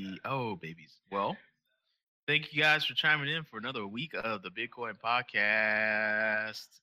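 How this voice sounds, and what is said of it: Usual voice. Nothing is said of it.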